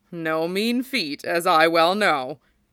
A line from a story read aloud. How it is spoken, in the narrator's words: Rin chuckled